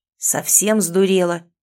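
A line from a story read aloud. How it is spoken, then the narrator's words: Spluttering roar. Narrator (Russian): взревел он, брызнув слюной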